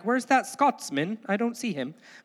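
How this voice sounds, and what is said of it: Poor attempt at Scottish accent. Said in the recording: “which is not a Scottish accent. I don't know why I did that.”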